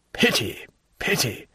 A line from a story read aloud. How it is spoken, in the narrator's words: murmured Villefort